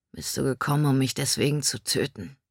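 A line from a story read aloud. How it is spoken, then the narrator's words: Indifferent question. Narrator (German): fragte Caden mit gleichgültiger Stimme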